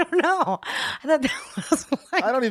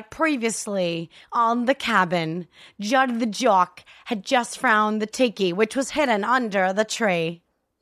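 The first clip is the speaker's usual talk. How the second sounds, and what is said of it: Bad put-on Australian-Kiwi accent. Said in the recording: “my accent, when I tried to do the white accent of the European, is so bad that it's, I think, brings joy to people because it is so bad ... What the fuck was that? ... It's your own language. ... in my mind, it's like Australian meets Kiwi”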